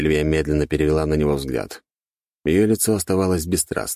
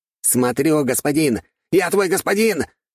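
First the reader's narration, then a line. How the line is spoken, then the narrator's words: Furious shout, slightly softening. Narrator (Russian): яростно крикнул, но чуть сбавив напор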